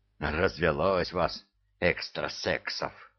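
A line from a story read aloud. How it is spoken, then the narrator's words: Mutter. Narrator (Russian): пробормотал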